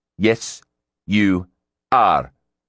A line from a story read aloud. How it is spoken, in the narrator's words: Gibraltar enunciated sternly